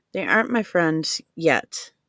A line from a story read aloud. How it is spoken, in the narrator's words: she replied